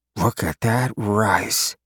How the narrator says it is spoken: Gojen muttered

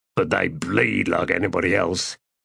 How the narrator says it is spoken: the first man said in a low grumble

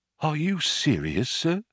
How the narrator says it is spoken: he said in a small whisper

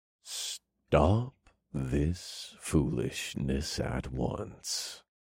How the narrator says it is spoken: he said in a low purr like he was talking to a child or an obedient animal

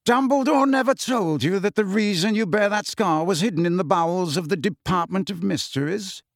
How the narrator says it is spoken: said Malfoy sneeringly

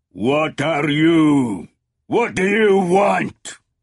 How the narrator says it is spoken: he roared in English

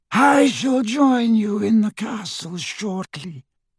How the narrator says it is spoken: he said in his high, cold voice

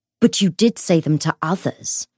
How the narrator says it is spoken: Matthew said icily

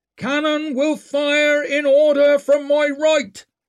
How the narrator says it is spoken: he roared

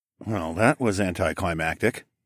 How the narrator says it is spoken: I muttered

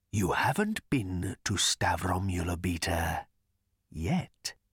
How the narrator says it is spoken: he whispered

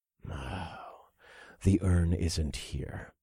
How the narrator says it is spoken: I muttered as it all became clear to me

